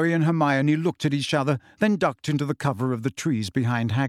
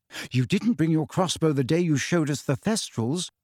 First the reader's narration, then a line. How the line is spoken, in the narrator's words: said Hermione timidly